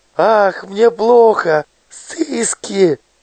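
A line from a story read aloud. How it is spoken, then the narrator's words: Moaning. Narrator (Russian): Мишка застонал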